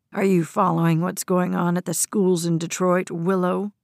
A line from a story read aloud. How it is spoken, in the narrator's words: General's voice was low, menacing, like a snarling dog warning another animal to keep its distance